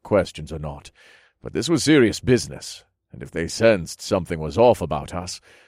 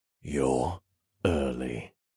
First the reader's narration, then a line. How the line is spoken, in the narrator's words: said in a low, gruff voice